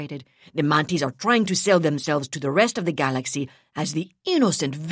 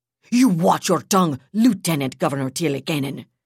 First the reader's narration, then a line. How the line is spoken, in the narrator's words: Duenya snapped